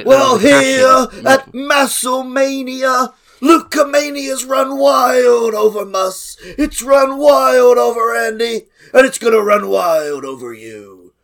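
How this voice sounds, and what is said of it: Strained put-on voice ending in cough. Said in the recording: “I'm too ill to do that voice. ... I really enjoyed that cough.”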